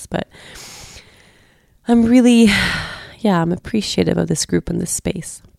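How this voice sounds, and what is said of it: Slightly stuffy, strained voice. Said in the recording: “I feel like I'm about to lose my voice. I hope I'm not going to lose my voice. I'm stuffy a little bit.”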